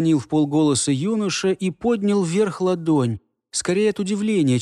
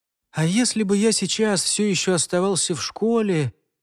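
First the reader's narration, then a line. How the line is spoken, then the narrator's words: Sad. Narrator (Russian): печально вымолвил Альфред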